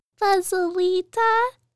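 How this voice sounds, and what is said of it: Very tiny voice. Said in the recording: “in a very tiny voice.”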